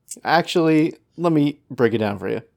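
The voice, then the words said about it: Condescending explanatory tone. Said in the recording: “That tone of voice is simultaneously condescending and sexually arousing”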